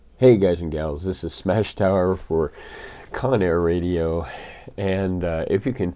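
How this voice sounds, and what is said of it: Very deep, sick, raspy voice. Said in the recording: “I've got the really deep, deep, deep voice. ... This is the I'm been sicker than a dog all week voice. And occasionally I'll probably hack and cough a little bit”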